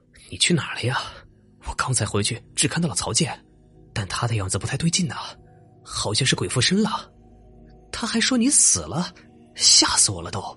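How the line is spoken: Panting. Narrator (Chinese): 我喘着气说道

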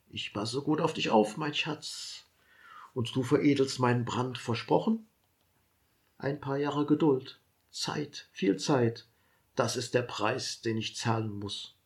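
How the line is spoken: Hoarse tender whisper. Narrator (German): flüstert heiser

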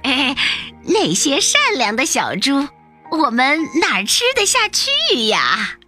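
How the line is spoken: Cheerful grinning. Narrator (Chinese): 狐狸爸爸笑嘻嘻地说

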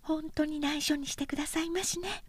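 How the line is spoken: Whispering. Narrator (Japanese): 医師はささやくように言った

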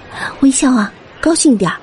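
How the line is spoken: Soft urging. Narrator (Chinese): 卢小姐小声叮咛

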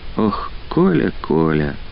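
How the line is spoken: Breathing out words. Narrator (Russian): выдохнула она

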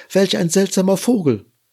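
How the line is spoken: Shouting. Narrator (German): Die Ameisen schrien

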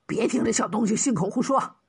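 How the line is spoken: Lingering anger. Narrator (Chinese): 贾捕快余怒未消，……说道

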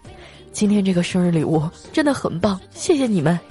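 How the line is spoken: Choked up. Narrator (Chinese): 他就哽咽道

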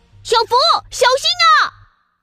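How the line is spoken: Loud shout, child. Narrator (Chinese): 龙王娃娃大喊一声

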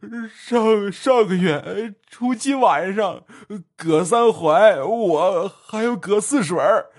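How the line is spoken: Wailing, sobbing. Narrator (Chinese): 葛茂生嚎啕大哭说道

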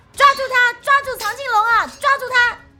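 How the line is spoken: Tense, loud shout. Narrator (Chinese): 紧张的小黑皮忍不住起身大喊

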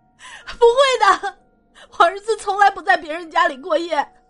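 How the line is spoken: Hoarse crying. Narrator (Chinese): 我妻子哑着嗓子哭道

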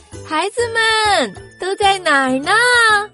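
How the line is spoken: Mother calling out. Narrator (Chinese): 鹅妈妈在喊他们

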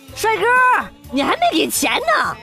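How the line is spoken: Shouting after someone. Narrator (Chinese): 小哥追着喊

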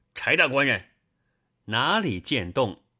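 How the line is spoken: Called out. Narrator (Chinese): 李逵叫一声

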